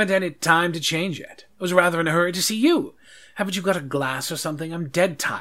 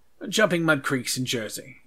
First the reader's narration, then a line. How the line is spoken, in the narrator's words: he said